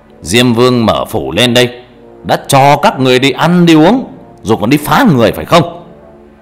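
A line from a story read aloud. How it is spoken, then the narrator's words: Shouting sternly. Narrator (Vietnamese): Thầy quát lên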